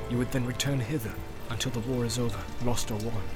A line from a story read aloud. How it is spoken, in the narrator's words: said Eomer in a low voice